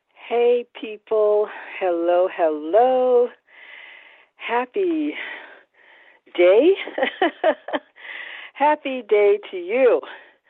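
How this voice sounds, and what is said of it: Out of breath, panting. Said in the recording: “If I sound a little out of breath, it's because I am ... I ran downstairs to get it”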